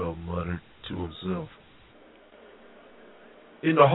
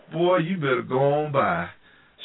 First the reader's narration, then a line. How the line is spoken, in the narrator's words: Charmaine laughed with Wanda